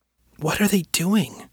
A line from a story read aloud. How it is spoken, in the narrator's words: whispered